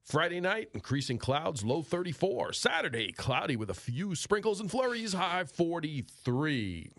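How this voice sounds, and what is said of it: Exaggerated radio announcer voice. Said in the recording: “could use my radio voice now”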